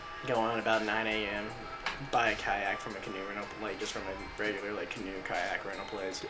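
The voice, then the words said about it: Deliberate country accent. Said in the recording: “You're talking country right now. ... You're talking with a purposeful country accent as well.”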